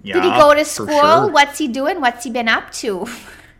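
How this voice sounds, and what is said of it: Put-on accent, done well. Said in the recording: “You're really good at that accent, eh?”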